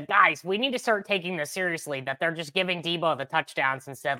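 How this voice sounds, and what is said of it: Imitation of another podcaster's voice. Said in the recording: “pretty good Nate impression”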